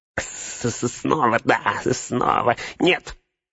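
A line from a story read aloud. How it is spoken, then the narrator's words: Shrill squeal. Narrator (Russian): взвизгнул Горлум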